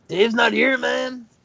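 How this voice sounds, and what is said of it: Bad impression of another person's voice. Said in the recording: “This is just our bad impression of a Cheech and Chong album.”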